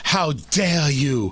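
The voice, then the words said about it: Greta Thunberg impression. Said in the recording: “That's not a bad impression, actually. It's actually not bad. My Greta Thunberg is right on.”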